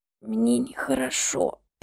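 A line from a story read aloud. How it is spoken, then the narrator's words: Mumble. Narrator (Russian): пробормотала она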